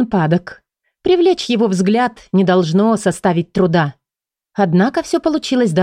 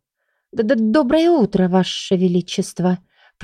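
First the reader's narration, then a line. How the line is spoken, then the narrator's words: Mumbled. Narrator (Russian): промямлила я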